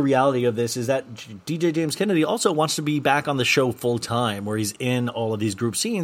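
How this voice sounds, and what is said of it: Usual voice. Nothing is said of it.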